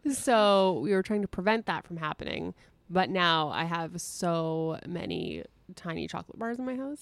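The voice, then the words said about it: Raspy voice. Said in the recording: “my voice might sound ... super raspy. ... Super raspy.”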